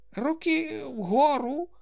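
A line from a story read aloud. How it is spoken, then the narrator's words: Weak repeated words. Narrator (Ukrainian): повторив Паніковський ослаблим голосом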